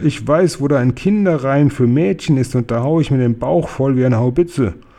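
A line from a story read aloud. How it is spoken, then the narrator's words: Monster bellowing. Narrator (German): brüllte der Mädchenmanscher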